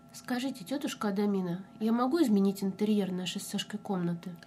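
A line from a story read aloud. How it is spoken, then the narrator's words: Quiet question. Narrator (Russian): Негромко поинтересовалась она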